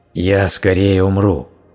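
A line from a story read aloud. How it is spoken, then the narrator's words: Growling vile creature. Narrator (Russian): прорычала гнусная тварь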